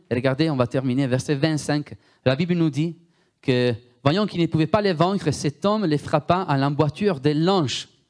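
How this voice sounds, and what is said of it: Strong Italian accent speaking French. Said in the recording (French): “J'ai un accent très fort italien, vous avez remarqué. J'ai difficulté à prononcer les U et les OU.”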